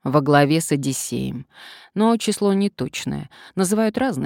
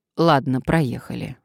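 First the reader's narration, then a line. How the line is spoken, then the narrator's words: Sighing. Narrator (Russian): вздохнула Надежда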